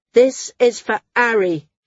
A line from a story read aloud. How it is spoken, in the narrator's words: he shouted, his tone deadly